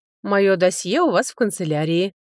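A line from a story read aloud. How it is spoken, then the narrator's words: Mocking. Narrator (Russian): насмешливо сказал Аш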